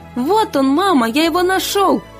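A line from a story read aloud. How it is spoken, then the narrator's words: Shouting. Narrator (Russian): закричал Миша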